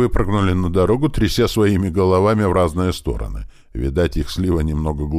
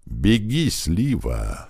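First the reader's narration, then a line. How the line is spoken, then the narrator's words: Barely audible. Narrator (Russian): едва слышно произнес Клёпа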